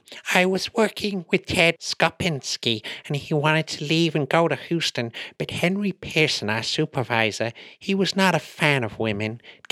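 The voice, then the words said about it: Imitates another person's voice. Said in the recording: “my little impression”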